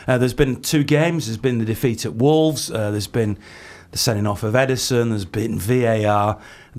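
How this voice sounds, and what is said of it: Sore, strained throaty voice. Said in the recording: “my sore throat ... give my voice a rest”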